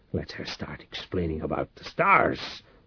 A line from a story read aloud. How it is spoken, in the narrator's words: Reich muttered, halfway between anger and terror